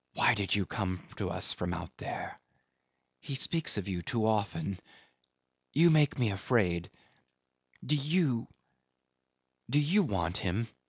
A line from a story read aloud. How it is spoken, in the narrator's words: A sort of stealthy fierceness had crept into our hurried murmurs